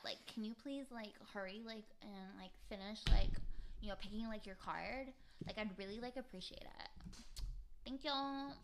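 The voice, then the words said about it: Valley Girl accent. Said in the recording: “I can do a pretty good Valley Girl ... do the Valley Girl”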